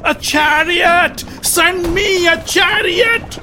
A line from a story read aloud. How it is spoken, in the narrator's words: Yudhishthir screamed in pain